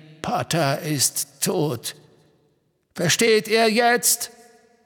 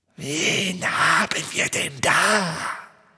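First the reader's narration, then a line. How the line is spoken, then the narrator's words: Soft snakelike hiss. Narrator (German): sagte er mit seinem leisen, schlangenartigen Zischen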